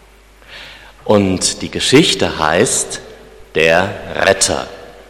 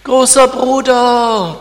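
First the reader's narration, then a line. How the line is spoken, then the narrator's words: Squeaky voice. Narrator (German): piepste Clara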